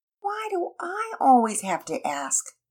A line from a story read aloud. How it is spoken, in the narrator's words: Penelope whined